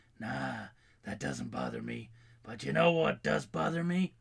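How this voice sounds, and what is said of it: Clint Eastwood impression. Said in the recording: “the Clint Eastwood voice”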